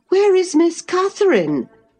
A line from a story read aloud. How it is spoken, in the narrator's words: cried hurriedly